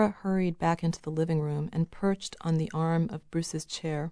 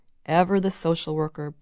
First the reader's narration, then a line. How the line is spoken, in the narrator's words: Bruce snorted